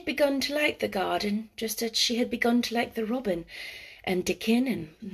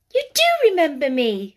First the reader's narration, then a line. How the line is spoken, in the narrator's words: she cried out